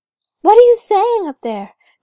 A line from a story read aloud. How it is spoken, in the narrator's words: cried Gerda